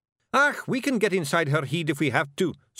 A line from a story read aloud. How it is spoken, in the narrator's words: said Rob